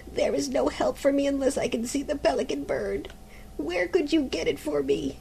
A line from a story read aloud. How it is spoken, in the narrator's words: groaned the mother